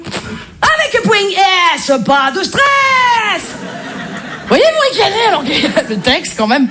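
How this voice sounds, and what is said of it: Marseille French accent. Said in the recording (French): “l'accent, je suis marseillaise ... l'accent marseillais”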